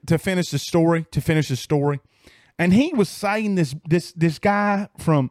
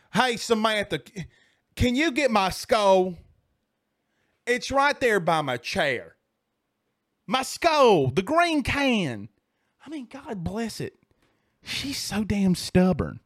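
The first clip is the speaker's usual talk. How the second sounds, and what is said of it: Impression of a Mississippi man. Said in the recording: “That's the guys that I envision in Mississippi ... Is that a good impression?”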